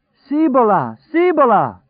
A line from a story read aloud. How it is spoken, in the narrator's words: Trash cried rapturously